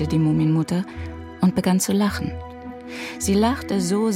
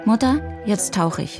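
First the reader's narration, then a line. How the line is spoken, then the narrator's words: Plain. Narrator (German): sagte Mumin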